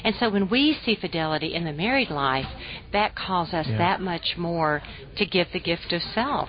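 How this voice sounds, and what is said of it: Southern American accent. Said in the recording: “mocking my southern accent”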